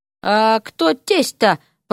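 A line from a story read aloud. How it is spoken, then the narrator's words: Confused mutter. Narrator (Russian): пробормотал обескураженный Поля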